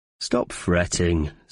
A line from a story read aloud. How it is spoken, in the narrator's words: scoffed Dempsey from up above